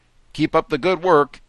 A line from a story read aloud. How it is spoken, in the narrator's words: laugh